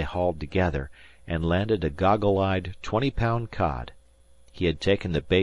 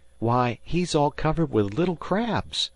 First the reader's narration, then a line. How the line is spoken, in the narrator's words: cried Harvey